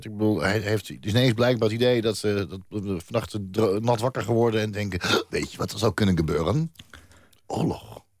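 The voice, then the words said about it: Put-on Luxembourgish accent. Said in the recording (Dutch): “Is dat een Luxemburgse accent? ... Ja, dat is perfect Luxemburgs. ... Dat lijkt wel een dronken Fransman.”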